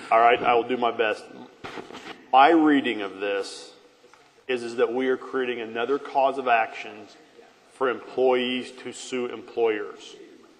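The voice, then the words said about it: Deep, hard-to-hear voice. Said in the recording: “You have that deep voice. It's hard to hear. ... It is hard to hear”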